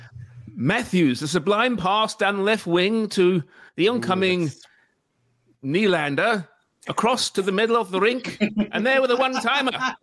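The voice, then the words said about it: Posh British hockey commentary. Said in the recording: “do it in a very posh accent, please, please, please. Oh, like my accent.”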